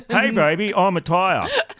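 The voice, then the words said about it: Silly character voice of a tire. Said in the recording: “my tire impression”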